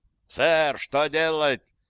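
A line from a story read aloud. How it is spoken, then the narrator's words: Full-throated Scottish bellow. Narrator (Russian): заорал Маккормак со всей своей ублюдочной шотландской глотки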